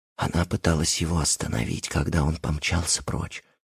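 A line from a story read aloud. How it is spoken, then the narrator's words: Hushed whisper. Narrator (Russian): сказала Филиппа, понизив голос до шепота, словно Ричард мог услышать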